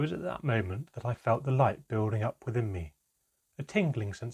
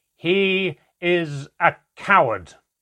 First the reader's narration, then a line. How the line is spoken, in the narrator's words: my father roared back